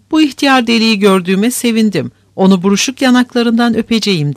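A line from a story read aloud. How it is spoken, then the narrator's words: Thought, then shouted aloud. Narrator (Turkish): diye düşündü ve yüksek sesle bağırdı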